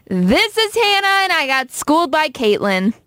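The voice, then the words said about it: Happy-sounding voice. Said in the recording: “Why did I sound happy?”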